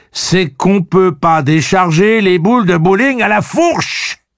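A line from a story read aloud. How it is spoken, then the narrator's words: Terrible angry anguished scream. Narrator (French): Un hurlement terrible mêlant la colère et l'angoisse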